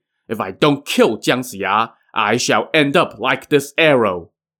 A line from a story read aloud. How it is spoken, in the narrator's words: swearing